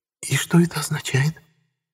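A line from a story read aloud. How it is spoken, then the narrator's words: Whispering. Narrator (Russian): прошептала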